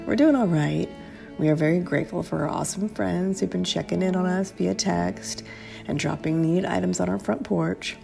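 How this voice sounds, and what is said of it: Sick, congested voice. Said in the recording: “as you might be able to tell from my voice ... came down with COVID”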